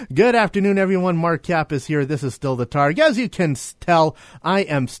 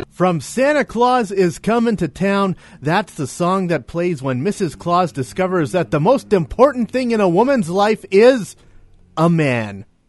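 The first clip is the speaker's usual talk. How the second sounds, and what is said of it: Sarcastic tone. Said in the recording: “I'm being sarcastic.”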